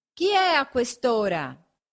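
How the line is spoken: Shouted from a window. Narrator (Italian): gridò una voce dalla finestra

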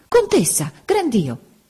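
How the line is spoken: Sudden exclamation. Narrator (Italian): A un tratto Don Cono esclamò

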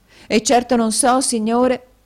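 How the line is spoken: Exclaimed. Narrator (Italian): esclamò la signora Kenwigs

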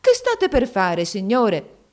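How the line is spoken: Exclamation. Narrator (Italian): La madre di Nureddin esclamò

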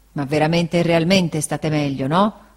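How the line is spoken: Grumbling. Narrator (Italian): brontolò Barkis

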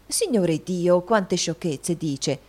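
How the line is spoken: Exclamation. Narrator (Italian): esclamò la signora Lillywick

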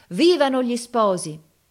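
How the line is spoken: Crowd shouting. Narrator (Italian): tutta la gente gridava

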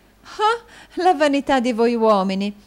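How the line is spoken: Exclaiming. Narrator (Italian): esclamò la signorina Snevellicci

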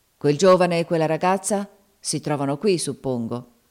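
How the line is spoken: Irritated voice. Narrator (Italian): disse egli con voce stizzosa

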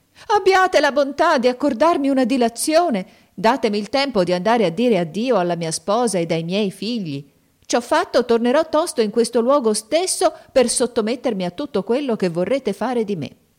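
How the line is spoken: Merchant crying out. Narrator (Italian): il mercante gettò un grido e gli disse

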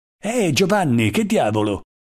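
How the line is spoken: Exclaimed. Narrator (Italian): esclamò egli

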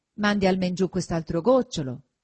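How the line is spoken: Plain. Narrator (Italian): disse Perpetua

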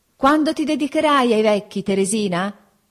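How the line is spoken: Calling out to someone distant. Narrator (Italian): gridai per essere inteso da lei, che m'era già lontana

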